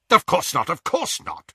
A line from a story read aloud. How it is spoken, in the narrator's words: said Lucius impatiently